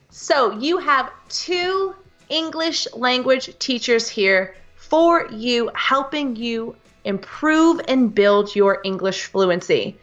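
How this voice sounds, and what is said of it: American English accent. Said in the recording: “I'm from the US ... hear the British and American English accent”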